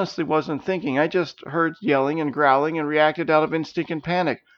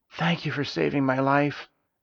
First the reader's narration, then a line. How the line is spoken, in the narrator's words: Bede whispered